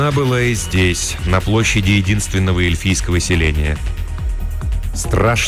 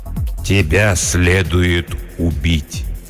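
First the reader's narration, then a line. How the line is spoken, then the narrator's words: Slow. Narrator (Russian): медленно произнес владыка Лориэна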